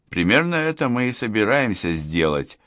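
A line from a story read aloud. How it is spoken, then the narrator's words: Snort. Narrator (Russian): хмыкнул Кричко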